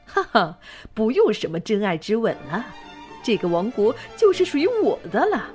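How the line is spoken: Laughing triumphantly. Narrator (Chinese): 他大笑道

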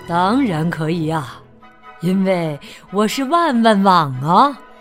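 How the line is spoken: Smiling. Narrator (Chinese): 万万网笑了笑说

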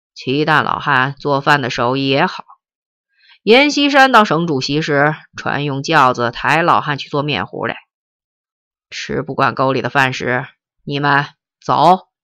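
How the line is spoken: Cold. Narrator (Chinese): 奎元…冷冷地说

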